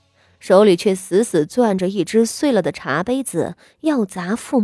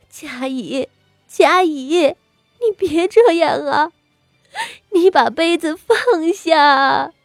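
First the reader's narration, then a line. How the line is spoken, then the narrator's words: Crying. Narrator (Chinese): 傅妙仪哭道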